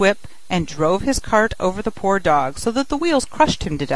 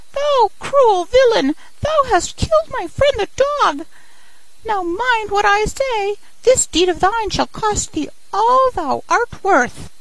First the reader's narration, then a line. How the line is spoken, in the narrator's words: cried the sparrow